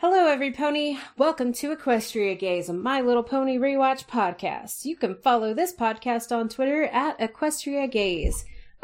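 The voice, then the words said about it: Exaggerated announcer voice. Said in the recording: “I'm extra announcer voice today.”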